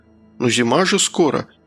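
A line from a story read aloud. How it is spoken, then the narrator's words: Uncertain mumble. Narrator (Russian): неуверенно пробормотал я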